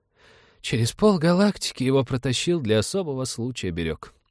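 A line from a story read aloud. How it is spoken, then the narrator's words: Sighing. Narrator (Russian): вздохнул он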